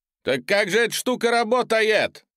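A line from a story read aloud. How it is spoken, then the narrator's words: Shouted. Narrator (Russian): закричал я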